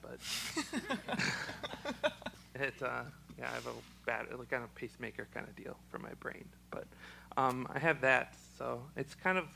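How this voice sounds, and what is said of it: Choked-up voice, frog in throat. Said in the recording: “it kind of sounds like I'm getting choked up and the frog in my throat”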